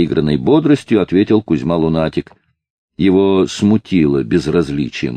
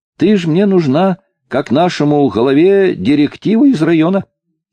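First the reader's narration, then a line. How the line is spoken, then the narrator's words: Cheerful. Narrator (Russian): весело продолжал Кузьма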